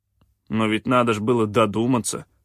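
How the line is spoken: Grumbled. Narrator (Russian): проворчал Кианг

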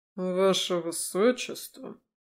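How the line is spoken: Surprised drawl. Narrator (Russian): Удивленно протянул сутенер

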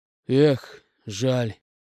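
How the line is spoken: Heavy sigh. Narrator (Russian): тяжело вздохнул Гена

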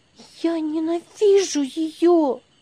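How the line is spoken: Exclaimed through clenched teeth. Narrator (Russian): воскликнула она, стиснув зубы

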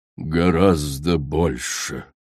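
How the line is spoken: Muffled hollow voice. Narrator (Russian): глухо проговорила коралл

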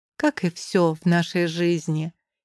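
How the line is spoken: Philosophical pronouncement. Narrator (Russian): изрекаю с философским акцентом

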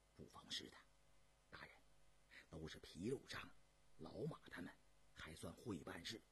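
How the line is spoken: Quiet, low. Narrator (Chinese): 高师爷小声地说道

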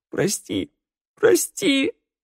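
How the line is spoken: Sobbing. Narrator (Russian): рыдал Раду

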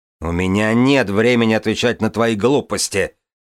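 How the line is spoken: Barked. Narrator (Russian): рявкнул

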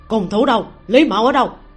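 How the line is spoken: Confused urgent shout. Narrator (Vietnamese): Ninh Đàn không biết vì sao đội quân của mình đột nhiên không có động tĩnh gì, quát lên

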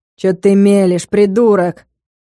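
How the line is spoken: Growled again. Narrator (Russian): Снова рыкнул Денис

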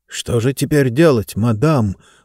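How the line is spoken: Whisper. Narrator (Russian): прошептал один из полицейских

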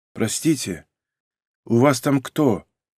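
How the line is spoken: Quiet question, graying man. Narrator (Russian): тихо спросил мужчина с еле пробивающейся сединой на висках

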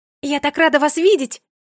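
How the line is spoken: Exclaiming. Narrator (Russian): воскликнула Феа

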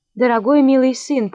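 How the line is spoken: Trembling voice. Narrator (Russian): проговорила королева дрожащим голосом

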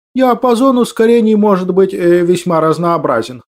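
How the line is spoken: Plain. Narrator (Russian): ответил профессор

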